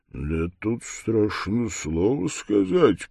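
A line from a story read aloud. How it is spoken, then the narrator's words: Grumbling to himself. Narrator (Russian): проворчал он про себя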